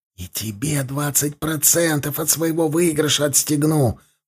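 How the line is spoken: Whisper. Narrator (Russian): Последние слова он произнес уже шепотом

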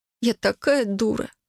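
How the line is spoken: Sobbing. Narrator (Russian): всхлипнула я

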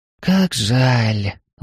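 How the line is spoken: Sighing. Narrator (Russian): вздохнула Ирина

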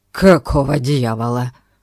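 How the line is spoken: Rough hoarse voice from depths. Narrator (Russian): Послышался грубый, охрипший голос из глубины

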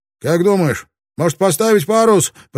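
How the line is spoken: Shouting. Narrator (Russian): прокричал Родригес

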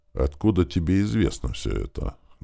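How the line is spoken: Muffled question. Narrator (Russian): глухим голосом спросил Вальдемар

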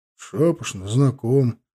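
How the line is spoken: Grumbling mutter. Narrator (Russian): буркнул Иван

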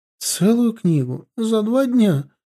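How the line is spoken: Frightened whisper. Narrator (Russian): испуганно прошептала Эрли, напуганная теперь уже моей свирепостью

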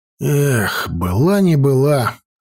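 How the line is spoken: Sighing. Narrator (Russian): вздохнул он

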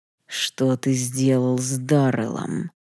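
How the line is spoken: Furious growl. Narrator (Russian): прорычал император, больше не в силах сдерживать ярость

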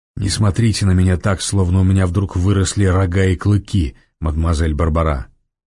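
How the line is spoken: Half-voice, ordinary tone. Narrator (Russian): В полголоса произнес Девре своим обычным голосом

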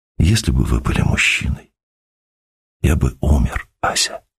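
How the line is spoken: Whisper after pause. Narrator (Russian): Константин … помолчав, сказал шепотом

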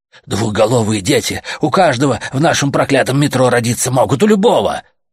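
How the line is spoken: Shouted outburst. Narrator (Russian): выкрикнул Гомер

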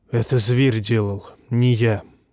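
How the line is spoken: Hoarse whisper. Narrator (Russian): хриплым шепотом сказал Варамир

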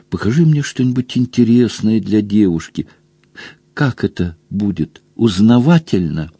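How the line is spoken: Breathless whisper. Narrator (Russian): часто дыша, зашептала в ухо

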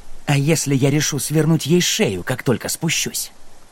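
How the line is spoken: Growling. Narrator (Russian): прорычал Джек

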